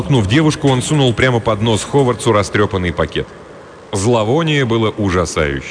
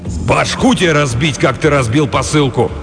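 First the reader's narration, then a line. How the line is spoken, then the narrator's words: Furious bark, huge man. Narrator (Russian): рявкнул огромный разъяренный детина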